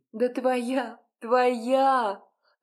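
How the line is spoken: Laughing reply. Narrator (Russian): рассмеялась в ответ эта издевательница

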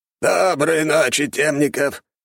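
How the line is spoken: Hoarse rasp. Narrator (Russian): прохрипел он

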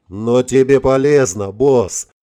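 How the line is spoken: Short laugh. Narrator (Russian): хохотнул Шварц

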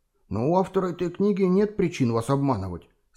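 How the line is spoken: Calm voice. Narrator (Russian): спокойным голосом произнес Куза

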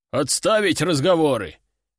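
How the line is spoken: Loud bark. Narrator (Russian): гаркнул 12-й

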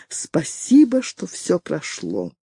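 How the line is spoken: Quiet speech. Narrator (Russian): Тихо произнесла Женевьева

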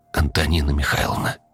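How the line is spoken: Quiet call. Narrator (Russian): негромко позвала Диана

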